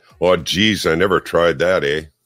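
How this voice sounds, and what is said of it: Northern Minnesota Scandinavian-Canadian accent. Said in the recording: “in my northern Minnesota, half Canadian, half Scandinavian accent.”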